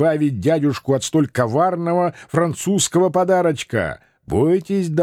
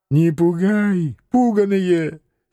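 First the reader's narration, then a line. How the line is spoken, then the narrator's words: Hoarse reply. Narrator (Russian): Сипло откликнулся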